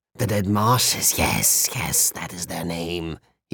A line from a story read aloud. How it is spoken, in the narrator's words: he cackled